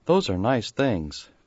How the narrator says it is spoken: he said in a low voice

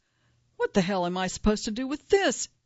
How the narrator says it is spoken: snapped

